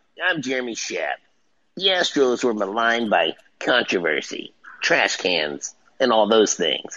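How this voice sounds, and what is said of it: Imitates another person's voice. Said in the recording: “That's my Jeremy Shapp impression. ... That's a pretty good Jeremy Shapp.”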